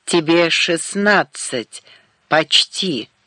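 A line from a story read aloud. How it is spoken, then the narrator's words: Plain. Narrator (Russian): сказала она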